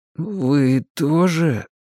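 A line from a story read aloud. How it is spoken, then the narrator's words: Timid babbling. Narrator (Russian): пролепетал я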